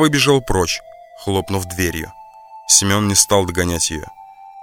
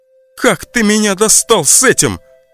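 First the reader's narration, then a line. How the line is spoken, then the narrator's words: Shouting out. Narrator (Russian): выкрикнула Настя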